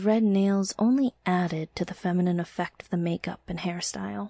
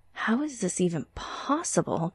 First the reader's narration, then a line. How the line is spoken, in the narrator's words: gasped Jason